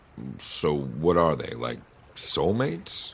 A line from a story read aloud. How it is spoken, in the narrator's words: I asked uneasily